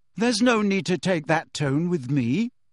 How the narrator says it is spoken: she said coolly

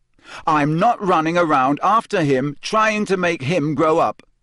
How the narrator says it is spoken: Harry said so loudly that several owls in a nearby tree took flight in alarm

